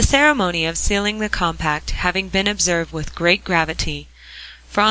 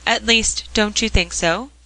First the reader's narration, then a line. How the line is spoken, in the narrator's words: she asked anxiously